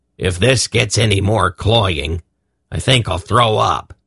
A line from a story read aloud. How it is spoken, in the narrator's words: Belden said gruffly